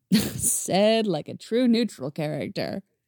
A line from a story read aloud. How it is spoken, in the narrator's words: With another laugh, Eddie said